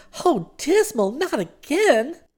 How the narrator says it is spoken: exclaimed

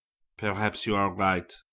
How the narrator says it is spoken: returned Duncan, wearily

